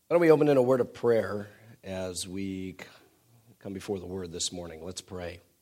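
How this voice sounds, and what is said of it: Congested voice from a cold. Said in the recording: “you'll hear my voice is a little bit different. ... Been fighting a cold, so I hope you can bear with the sound of my voice today.”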